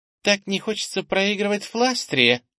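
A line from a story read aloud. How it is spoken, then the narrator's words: Giggle. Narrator (Russian): хихикнула Ира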